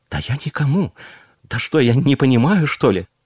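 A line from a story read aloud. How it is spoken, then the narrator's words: Flustered babbling. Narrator (Russian): пролепетала Ставская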